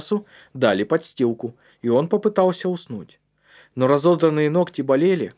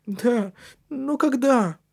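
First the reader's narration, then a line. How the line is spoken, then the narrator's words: Question suppressing sob. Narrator (Russian): спросил он, подавляя рыдание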